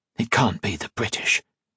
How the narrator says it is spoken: he whispered

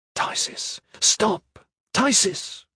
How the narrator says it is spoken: Kip whispered

